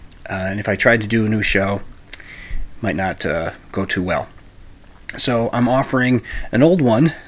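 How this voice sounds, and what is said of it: Sick, under-the-weather voice. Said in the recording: “I'm a bit under the weather. You might be able to hear it in my voice.”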